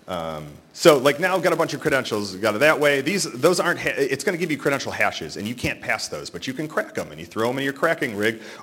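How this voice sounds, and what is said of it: Very fast, rushed speech. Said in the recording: “I'm screaming through this”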